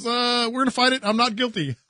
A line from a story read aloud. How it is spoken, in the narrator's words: and he laughed